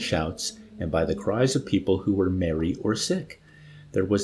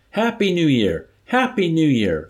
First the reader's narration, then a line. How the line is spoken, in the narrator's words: A triumphant, familiar voice shouted hilariously from high above, between the short, sharp bursts of machine gun fire